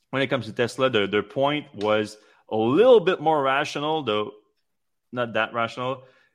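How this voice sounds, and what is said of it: Strained, fading voice. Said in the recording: “I'm losing my voice right now”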